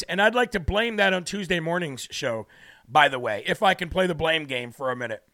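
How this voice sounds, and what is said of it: Hoarse, strained voice. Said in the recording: “losing my voice. Even though I'm losing my voice.”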